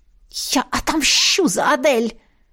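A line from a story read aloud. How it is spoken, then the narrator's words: Hiss. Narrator (Russian): прошипела она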